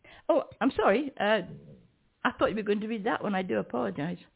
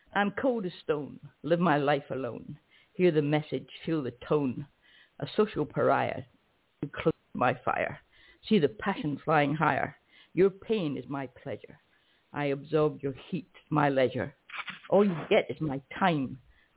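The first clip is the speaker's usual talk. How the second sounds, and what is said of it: Deliberately poor put-on American accent. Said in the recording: “my terrible American accent, okay, because it's not my native tongue”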